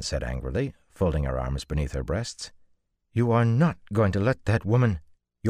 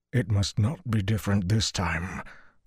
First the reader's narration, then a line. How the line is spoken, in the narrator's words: Luce Theron panted